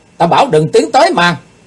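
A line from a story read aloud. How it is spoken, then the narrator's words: Loud shout. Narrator (Vietnamese): Kiếm khách quát to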